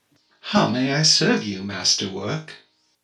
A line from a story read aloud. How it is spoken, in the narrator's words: She sighs